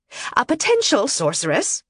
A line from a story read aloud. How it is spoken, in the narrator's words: Mistress Irene snapped